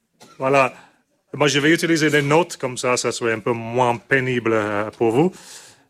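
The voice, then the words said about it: Strong accent in French. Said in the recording (French): “mon accent était terrible ... À écouter mon accent, 45 minutes de pénitence”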